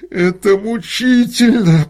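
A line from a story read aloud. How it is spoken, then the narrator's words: Through gritted teeth. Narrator (Russian): процедил сквозь зубы художник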